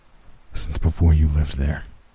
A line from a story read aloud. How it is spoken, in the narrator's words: he replied calmly, his voice deep